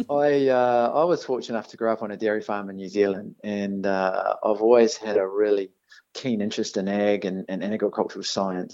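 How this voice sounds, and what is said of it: New Zealand accent. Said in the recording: “as you can tell from my accent, I am a Kiwi born.”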